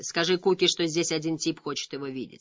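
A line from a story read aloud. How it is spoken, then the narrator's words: Plain. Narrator (Russian): сказал он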